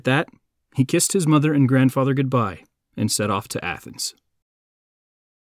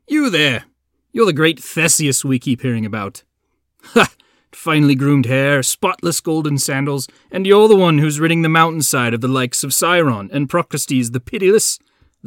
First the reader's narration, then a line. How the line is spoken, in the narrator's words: laughed